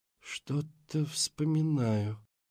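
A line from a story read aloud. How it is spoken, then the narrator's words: Breathed out. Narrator (Russian): выдохнул Эндрю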